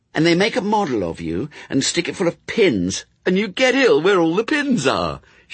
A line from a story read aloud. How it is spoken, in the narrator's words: she added cheerfully